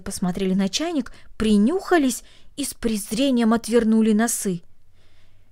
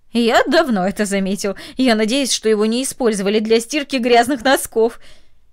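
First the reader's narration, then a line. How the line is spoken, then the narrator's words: Laughing, then speaking. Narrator (Russian): Ее сосед засмеялся и сказал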